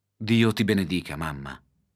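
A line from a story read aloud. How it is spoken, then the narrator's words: Plain. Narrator (Italian): disse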